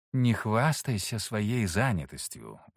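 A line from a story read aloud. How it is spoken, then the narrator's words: Sighing. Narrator (Russian): вздохнул Саргон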